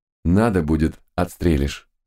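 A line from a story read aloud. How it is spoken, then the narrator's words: Calm reply. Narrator (Russian): спокойно ответил тот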